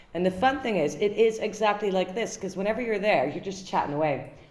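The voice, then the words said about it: Dutch accent, fairly low voice. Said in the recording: “you don't have a sexy Dutch accent ... his voice goes up way higher than mine”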